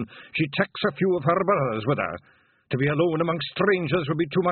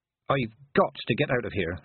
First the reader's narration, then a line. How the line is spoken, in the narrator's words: she muttered